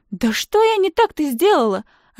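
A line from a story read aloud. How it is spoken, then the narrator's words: Hurt exclamation. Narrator (Russian): обиженно вскрикивает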